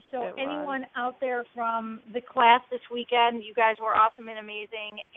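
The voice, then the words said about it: Tired, slightly mumbling speech. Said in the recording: “I'm mumbling a little bit, because I'm a little tired ... that's why I'm stumbling today”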